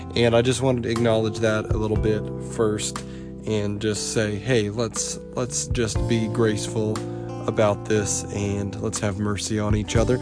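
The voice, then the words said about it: Sick, slightly off voice. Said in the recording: “there's something a little off ... the plague, so to speak, has been passed around my house ... my voice sounds a little different ... my voice is not so great right now”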